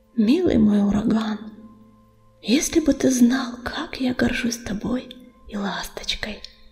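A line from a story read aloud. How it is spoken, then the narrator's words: Purring cat. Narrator (Russian): промурлыкала незнакомая кошка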